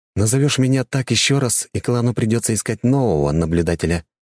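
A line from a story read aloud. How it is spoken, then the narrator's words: Calm warning. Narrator (Russian): спокойно предупредил я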